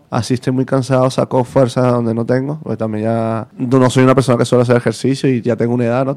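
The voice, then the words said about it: Venezuelan Spanish accent. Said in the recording (Spanish): “¿ese, acento de dónde es? ... soy de Venezuela.”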